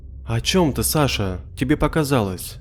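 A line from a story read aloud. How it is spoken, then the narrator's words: Gentle motherly reply. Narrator (Russian): Ласково ответила мама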